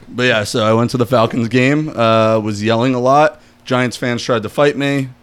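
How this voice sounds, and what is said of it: Hoarse, nearly lost voice. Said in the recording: “my voice is almost gone. ... It's slowly getting worse. ... Now my voice is like almost gone.”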